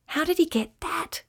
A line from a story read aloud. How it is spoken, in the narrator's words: whispered Ryan to Alba